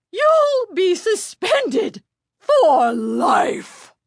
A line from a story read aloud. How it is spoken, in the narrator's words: she sputtered